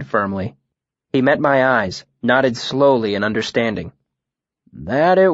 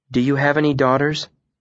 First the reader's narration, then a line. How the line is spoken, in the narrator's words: I asked him calmly